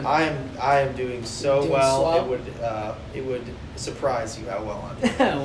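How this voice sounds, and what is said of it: Flat, unenthusiastic sarcastic delivery. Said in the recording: “I sound super enthusiastic.”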